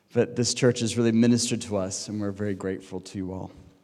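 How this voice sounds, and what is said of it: American accent. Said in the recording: “You can tell by my accent. There are all these Americans around Cambridge. I'm one of them.”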